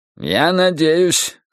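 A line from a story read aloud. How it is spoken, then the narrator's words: Stern. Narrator (Russian): сказал он строго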